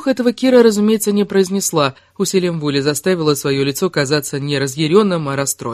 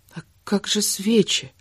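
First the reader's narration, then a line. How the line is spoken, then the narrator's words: Whispered. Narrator (Russian): зашептала Кира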